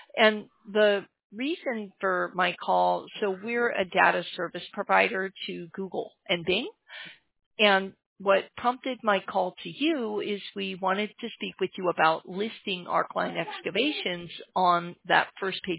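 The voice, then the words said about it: Strained voice that may crack. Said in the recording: “I'm losing my voice, though. I'm sorry if it cracks on you.”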